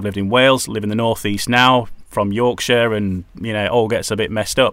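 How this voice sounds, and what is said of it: Neutral northern English accent. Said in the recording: “My natural accent, which is what I'm talking to you in now ... a neutral northern accent ... a friendly accent”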